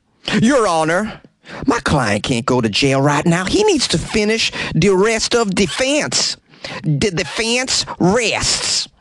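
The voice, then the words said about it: Imitates a lawyer's voice. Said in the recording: “my impression of Mark Neely's brilliant lawyer”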